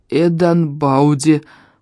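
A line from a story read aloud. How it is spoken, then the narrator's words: Hoarse wheeze. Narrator (Russian): просипел я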